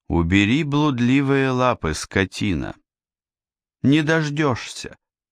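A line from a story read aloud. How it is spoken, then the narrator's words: Calm, haughty. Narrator (Russian): Яна вдруг произнесла спокойно, даже надменно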